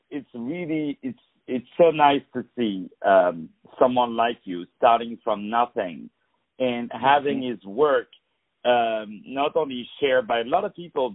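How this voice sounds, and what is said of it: French-accented English. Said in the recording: “Even the guy who has the honor of interviewing you is French ... oh, you have an accent.”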